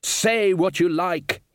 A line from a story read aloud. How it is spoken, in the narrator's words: he shouted